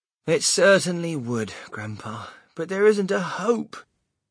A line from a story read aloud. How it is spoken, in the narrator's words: Charlie said sadly